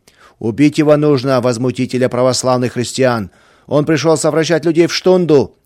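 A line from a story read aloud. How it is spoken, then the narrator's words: Crowd shouting. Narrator (Russian): кричали другие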